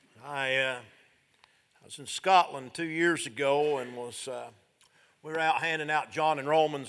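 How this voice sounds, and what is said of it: Strong country Southern accent. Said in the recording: “I was country ... As if you thought you might mistake my accent for being New York City”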